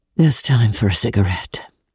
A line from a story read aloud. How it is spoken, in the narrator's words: sighed out